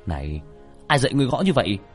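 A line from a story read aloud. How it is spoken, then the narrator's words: Shouting. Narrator (Vietnamese): Tiểu Thất quát lên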